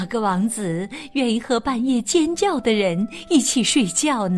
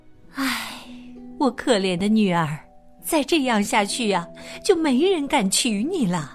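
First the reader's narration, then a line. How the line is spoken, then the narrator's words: Mother sighing. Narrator (Chinese): 妈妈叹了一口气，说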